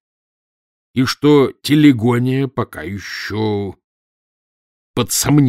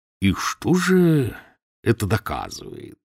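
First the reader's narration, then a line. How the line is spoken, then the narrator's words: Soft persuasive question. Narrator (Russian): спросил он мягким, убеждающим тоном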